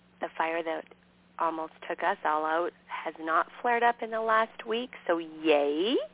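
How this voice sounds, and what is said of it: Scratchy voice. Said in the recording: “my voice is so scratchy. Just all the smoke”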